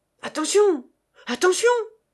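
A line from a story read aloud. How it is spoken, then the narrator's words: Exclaimed. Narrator (French): s'écria M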